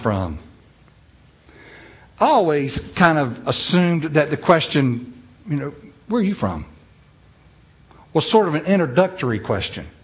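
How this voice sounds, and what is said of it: Noticeable regional accent. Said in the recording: “where's that accent? ... somebody thought that I had an accent”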